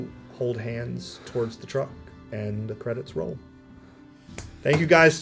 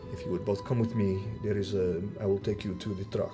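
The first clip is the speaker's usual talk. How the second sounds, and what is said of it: Thick, bizarre put-on accent. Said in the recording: “in a thick, bizarre accent,”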